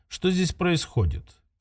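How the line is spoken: Quiet, level question. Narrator (Russian): тихо, без повышения голоса спросил он

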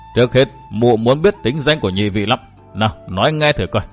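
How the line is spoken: Old woman laughing gleefully. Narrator (Vietnamese): lão bà bật cười lên thích chí

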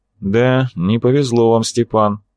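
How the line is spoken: Gloomy tone. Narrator (Russian): мрачным тоном ответствовал Арцулов

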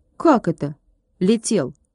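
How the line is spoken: Stern girl asking. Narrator (Russian): строго спросила девчонка

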